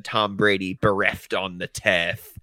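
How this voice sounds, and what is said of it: Poor put-on Australian accent. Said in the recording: “Imagine a better Australian accent than that ... Steph is gonna fire you for that Australian accent.”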